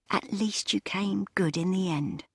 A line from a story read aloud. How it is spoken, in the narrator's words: she whispered into the darkness